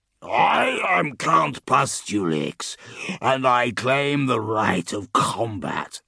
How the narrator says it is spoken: the warrior roared

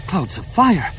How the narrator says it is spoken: Numa gasped

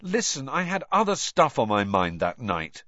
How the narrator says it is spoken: said Harry impatiently

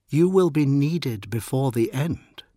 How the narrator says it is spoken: she had said

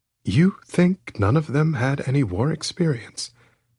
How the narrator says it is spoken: I asked calmly

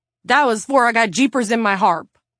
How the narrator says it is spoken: the representative blurted

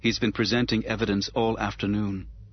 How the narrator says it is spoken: she said in a flat, effectless monotone

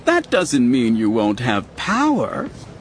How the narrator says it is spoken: Kahl laughed brightly

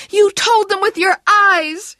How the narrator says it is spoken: she shouted at him

